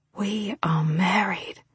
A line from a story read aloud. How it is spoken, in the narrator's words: I said in an awed whisper